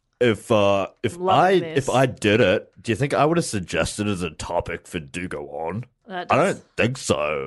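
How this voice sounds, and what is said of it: Put-on Australian accent. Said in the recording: “that's why I'm doing an accent ... It is Australian.”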